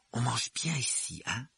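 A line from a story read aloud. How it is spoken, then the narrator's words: Whispering. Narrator (French): chuchota Ron à Harry à travers les rideaux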